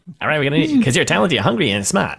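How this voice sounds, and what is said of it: Put-on 1930s New York accent. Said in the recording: “accent the boss was using? It was like some weird ... I thought it was like a 1930s New York accent ... It was a really strange accent.”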